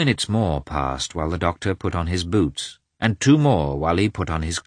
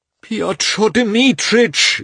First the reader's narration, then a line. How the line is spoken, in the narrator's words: Levin again began in a piteous voice